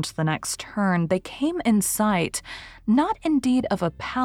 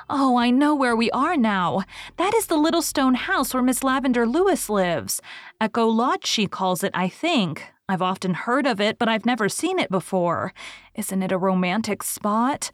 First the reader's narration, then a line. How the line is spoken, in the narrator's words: Anne stopped short in rapture